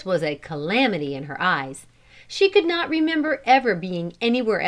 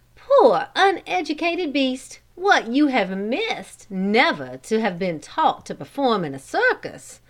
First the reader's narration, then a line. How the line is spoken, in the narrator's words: she ... exclaimed